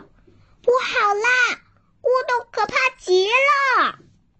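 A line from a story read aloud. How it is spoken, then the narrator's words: Shouting while running. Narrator (Chinese): 兔子一边跑一边叫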